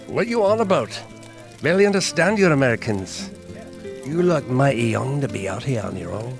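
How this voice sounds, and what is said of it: Scottish accent. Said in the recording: “where that accent's from ... I hail from the faraway spithole known as Scotland”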